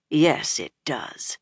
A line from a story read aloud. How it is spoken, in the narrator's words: Nynaeve said grimly